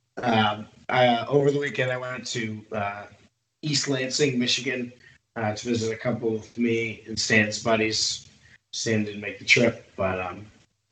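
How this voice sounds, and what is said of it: Rough, damaged-sounding voice. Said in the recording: “my voice sounds like a terrible thing died in my throat”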